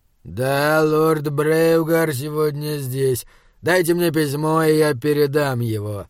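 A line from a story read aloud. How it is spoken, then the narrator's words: Through gritted teeth. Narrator (Russian): процедил сержант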